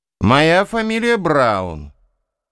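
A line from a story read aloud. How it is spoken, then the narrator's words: Loud answer. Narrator (Russian): громко ответил тот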